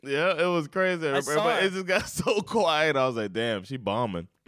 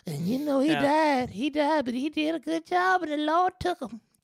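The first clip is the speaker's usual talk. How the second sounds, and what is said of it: Imitates another person's voice. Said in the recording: “that was a really good impression ... when you did that voice, I could see her”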